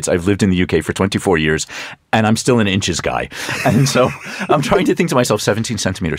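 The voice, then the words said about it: American accent. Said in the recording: “you can tell by my accent that I'm from the United States.”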